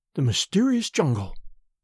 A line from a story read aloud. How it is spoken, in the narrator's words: she murmured